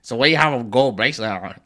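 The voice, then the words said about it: Imitates another person's voice. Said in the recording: “I know whose voice you're imitating, too.”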